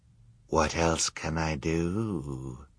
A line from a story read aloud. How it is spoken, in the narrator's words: the villain asked, so quietly the children could not be sure they had heard him correctly